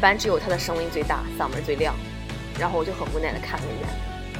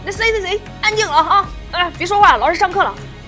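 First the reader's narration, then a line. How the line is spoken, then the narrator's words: Shouting. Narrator (Chinese): 他立马会喊一声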